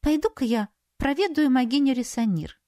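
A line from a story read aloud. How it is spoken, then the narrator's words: Innocent voice. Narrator (Russian): невинным голосом отозвалась Саяри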